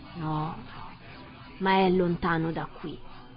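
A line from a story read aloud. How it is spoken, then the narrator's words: Sad reply. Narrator (Italian): disse, scuotendo tristemente il capo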